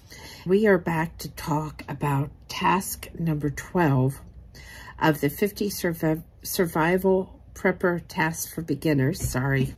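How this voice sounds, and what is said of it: Weak voice, fading at times. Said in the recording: “My voice is slowly coming back. It's still fading every so often, but it's a lot better than what it was.”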